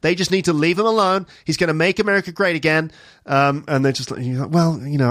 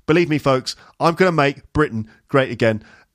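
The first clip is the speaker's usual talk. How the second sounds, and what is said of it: Trump impression with British accent. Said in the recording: “If Trump had a British accent, what would that be like? ... He's become Michael Caine.”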